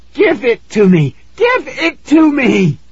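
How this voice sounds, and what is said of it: High, hoarse screaming voice. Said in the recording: “I screamed in a high, hoarse voice.”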